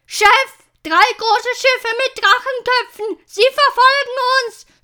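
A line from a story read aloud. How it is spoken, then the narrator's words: Shouting from high above. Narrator (German): schrie Gorm, der hoch oben am Mast im Ausguck saß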